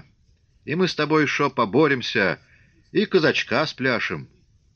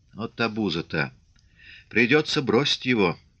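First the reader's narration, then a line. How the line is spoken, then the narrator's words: Whispered. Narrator (Russian): шепнул Фомин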